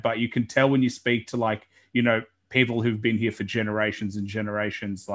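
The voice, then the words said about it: Mild Australian accent. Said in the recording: “the real true blue Australian. I don't really have that accent. When I go overseas, it seems really strong. But when, like, down here, it's not too bad.”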